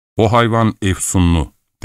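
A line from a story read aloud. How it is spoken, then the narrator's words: Plain. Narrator (Turkish): dedi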